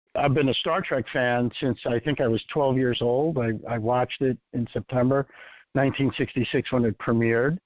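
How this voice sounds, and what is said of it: New York Bronx accent. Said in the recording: “In case anyone can't tell by my deep South Florida accent, I'm originally from New York, in the Bronx.”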